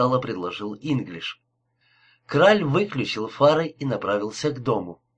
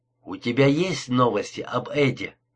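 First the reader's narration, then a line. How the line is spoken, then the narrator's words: Plain question. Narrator (Russian): спросил Инглиш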